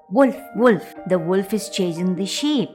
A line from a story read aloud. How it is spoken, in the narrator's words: the shepherd boy cried out once again